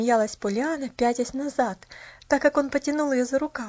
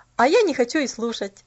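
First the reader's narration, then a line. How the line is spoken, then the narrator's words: Cheerful retort. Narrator (Russian): Весело отпарировать Джимми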